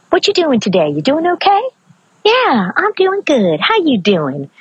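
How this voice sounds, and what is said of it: Maryland regional American accent. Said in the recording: “notice that I fall into the accent... part of me originally being from Maryland and loving the accent there”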